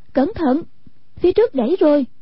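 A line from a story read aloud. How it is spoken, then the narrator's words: Calling out warning. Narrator (Vietnamese): Hoàng Dung kêu lên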